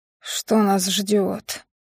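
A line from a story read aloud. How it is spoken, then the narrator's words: Groaned. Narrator (Russian): простонал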